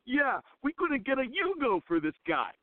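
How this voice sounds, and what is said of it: Imitated New York accent. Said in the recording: “in a perfect New York accent”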